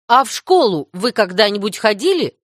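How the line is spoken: Stern question. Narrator (Russian): строго спросила Марила

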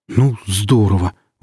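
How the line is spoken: Breathed out. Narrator (Russian): выдохнул Алексей

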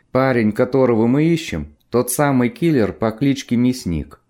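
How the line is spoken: Plain. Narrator (Russian): ответил зеленый сокол

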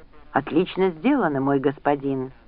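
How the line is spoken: Admiring whisper. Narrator (Russian): восхищенно прошептал Джек

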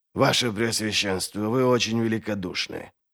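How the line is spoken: Humble mumble. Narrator (Russian): пробормотал Глокта, смиренно склоняя голову

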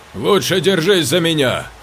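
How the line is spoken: Shout. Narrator (Russian): крикнул он ей

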